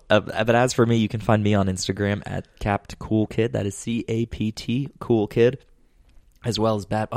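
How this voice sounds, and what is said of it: Slightly raspy, hoarse voice. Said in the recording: “I have something stuck in my throat ... I don't know if I sound a little raspy. ... I've had like a sore throat”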